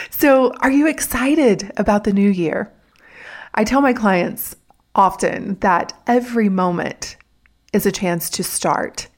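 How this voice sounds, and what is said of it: Raspy, hoarse voice. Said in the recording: “I've got a little bit of a cold, so I've got that raspy Marge Simpson voice”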